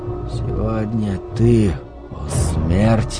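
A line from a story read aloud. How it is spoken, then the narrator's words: Barely audible whisper. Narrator (Russian): прошептал он так тихо, что не услышал собственного голоса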